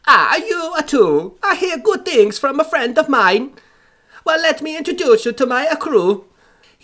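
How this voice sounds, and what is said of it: Put-on accented sea captain voice. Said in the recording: “this captain seemed genuine enough. Especially the accent. ... I regret this voice.”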